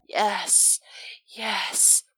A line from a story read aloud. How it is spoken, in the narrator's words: Lydia whispers